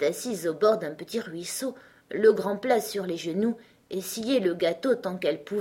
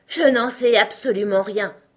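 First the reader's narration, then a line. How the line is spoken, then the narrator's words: Lion grumbling, lying back down. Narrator (French): grommela le lion tout en se recouchant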